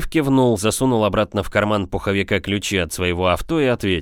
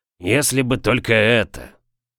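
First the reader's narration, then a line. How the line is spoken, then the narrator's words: Gloomy, through gritted teeth. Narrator (Russian): хмуро процедил Лафер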